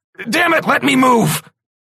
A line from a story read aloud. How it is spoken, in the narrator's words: I shouted at my suit